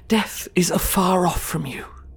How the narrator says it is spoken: he pleaded

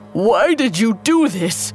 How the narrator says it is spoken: Silenus sighed

